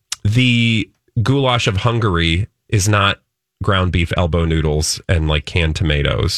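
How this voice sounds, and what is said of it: Usual voice. Nothing is said of it.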